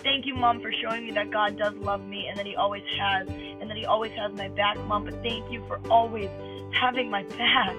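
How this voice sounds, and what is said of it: Emotional, choked-up voice. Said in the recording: “Oh, I'm getting emotional.”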